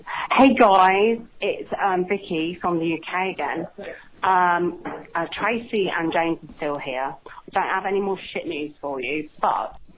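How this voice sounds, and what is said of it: Female Cockney accent. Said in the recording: “I love this accent. What is this accent? Is it like the female Cockney accent? ... Yeah.”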